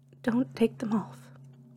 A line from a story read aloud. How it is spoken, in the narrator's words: I cried